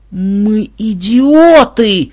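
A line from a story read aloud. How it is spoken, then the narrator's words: Howling. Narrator (Russian): взвыл я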